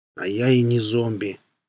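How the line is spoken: Creaky, miserable creature. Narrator (Russian): проскрипело несчастное существо

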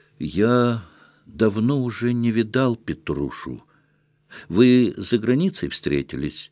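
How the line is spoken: Awkward mumbling. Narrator (Russian): пробормотал кое-как Степан Трофимович

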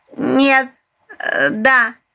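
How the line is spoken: Giggle. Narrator (Russian): хихикнула Аленушка

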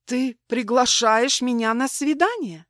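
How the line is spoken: Stunned exclamation. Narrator (Russian): ошеломленно воскликнула я

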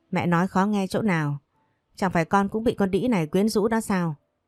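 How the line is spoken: Sarcastic mother. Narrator (Vietnamese): Mẹ của Minh Cường đáp lại bằng giọng điệu đầy mỉa mai

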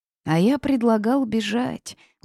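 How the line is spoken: Weary sighing. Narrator (Russian): устало произнес Корвус и вздохнул

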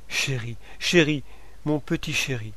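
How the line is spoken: Broken, tearful stammer. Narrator (French): Elle bégaye d'une voix brisée comme en pleurant

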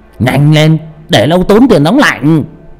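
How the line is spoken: Old man raising voice. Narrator (Vietnamese): ông già cao giọng

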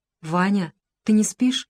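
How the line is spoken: Uncertain question. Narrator (Russian): голос Липы неуверенно спросил

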